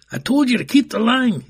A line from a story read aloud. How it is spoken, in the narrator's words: yelled again